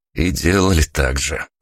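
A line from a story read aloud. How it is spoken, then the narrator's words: Wry snort. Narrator (Russian): хмыкнул я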